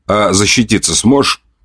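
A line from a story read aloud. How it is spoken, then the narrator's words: Smirking snort. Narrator (Russian): хмыкнул ей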